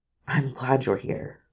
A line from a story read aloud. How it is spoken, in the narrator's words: whispered as he pressed close